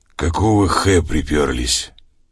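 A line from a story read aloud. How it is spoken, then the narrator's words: Hoarse voice. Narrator (Russian): Он сипло произнес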